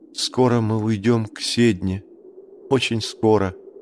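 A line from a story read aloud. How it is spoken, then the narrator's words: Whisper. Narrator (Russian): прошептала девушка с севера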